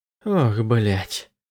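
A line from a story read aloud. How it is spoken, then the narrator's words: Exhaled words. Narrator (Russian): выдохнул Андерс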